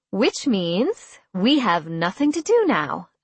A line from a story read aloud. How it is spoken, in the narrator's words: I said brightly